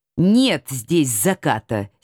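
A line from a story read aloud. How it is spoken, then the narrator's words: Angry grumble. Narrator (Russian): сердито пробурчала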